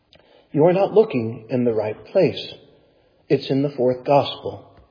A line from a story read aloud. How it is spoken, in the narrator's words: whispered sternly